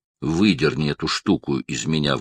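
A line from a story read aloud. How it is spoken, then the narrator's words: Sudden quiet voice. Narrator (Russian): внезапно сказал Даллас тихим голосом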